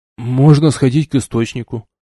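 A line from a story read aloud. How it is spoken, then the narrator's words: Grumble. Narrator (Russian): буркнул Зит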